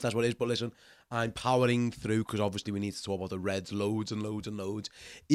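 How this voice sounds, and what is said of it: Stuffy, slightly strange-sounding voice. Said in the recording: “you sound a little bit different. Yeah, I do ... I'm nursing a little bit of a cold, so my voice sounds a bit strange”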